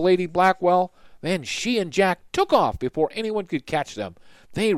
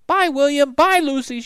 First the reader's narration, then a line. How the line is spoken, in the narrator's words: she shouted